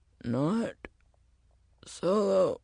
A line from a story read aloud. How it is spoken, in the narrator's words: he said, his voice straining